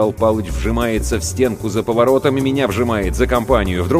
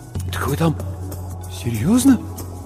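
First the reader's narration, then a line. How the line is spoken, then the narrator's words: Mumbling, trembling lips. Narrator (Russian): Бормочу, а у самого губы дрожат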